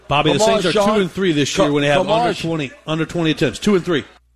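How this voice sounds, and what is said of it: Thick Cajun accent. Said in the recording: “Does that guy sound hammered ... He's Cajun ... He's got a thick accent ... he's got a thick, thick accent ... there's a lot of Cajun happening in these clips”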